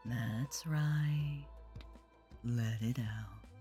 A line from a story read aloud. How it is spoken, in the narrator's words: purred, her clipped tones